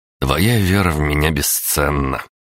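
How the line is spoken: Snorted. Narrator (Russian): хмыкнул я

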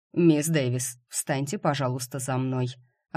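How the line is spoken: Completely calm request. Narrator (Russian): Абсолютно спокойно попросил он

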